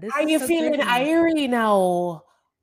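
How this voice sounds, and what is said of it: Poor put-on Jamaican accent. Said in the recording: “I love the way Jamaicans speak... I wish I could do the accent... what I'm doing is just horrible”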